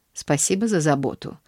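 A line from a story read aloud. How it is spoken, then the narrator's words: Dry reply. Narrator (Russian): ответила мисс Полли сухо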